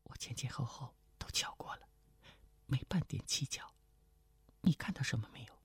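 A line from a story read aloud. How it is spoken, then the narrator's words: Whispering. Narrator (Chinese): 程灵素悄声说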